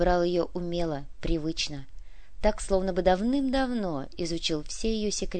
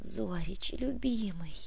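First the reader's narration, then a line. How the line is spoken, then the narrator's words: Eager whisper. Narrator (Russian): полные губы жадно шептали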